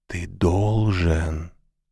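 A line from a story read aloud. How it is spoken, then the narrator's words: Whispered. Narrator (Russian): прошептала она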